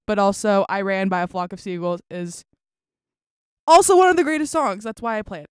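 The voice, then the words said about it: Very loud, yelling. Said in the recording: “That was so loud... I can't stop yelling.”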